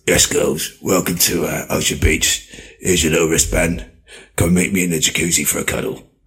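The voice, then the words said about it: Impression of Wayne Lineker. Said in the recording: “We need you to rate our impersonations of you”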